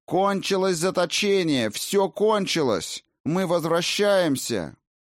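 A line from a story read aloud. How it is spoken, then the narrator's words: Tearful female shouting. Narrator (Russian): Она кричала, ощущая, как все сильнее и сильнее щиплет в глазах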